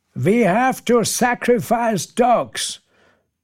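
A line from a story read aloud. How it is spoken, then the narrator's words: Call into silence. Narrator (German): ruft Brian in die Stille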